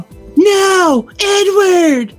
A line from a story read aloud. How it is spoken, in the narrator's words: Dally shouted